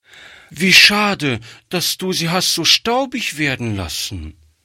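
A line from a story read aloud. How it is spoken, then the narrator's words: Call. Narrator (German): rief Gretchen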